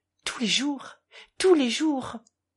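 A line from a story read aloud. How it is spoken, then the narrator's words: Murmured, reviving. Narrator (French): murmura le capitaine comme ranimé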